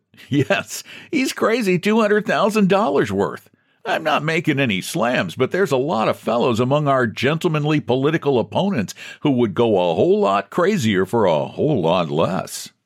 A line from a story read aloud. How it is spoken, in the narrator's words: the chief laughed and said